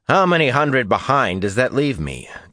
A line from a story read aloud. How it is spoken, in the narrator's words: Tomanus asked dryly